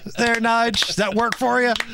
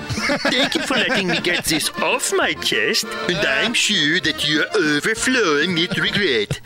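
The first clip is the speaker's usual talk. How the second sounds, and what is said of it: Put-on foreign accent. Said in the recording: “You like that accent?”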